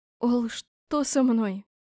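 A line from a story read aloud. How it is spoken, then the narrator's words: Breathless exhale. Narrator (Russian): выдохнула Лика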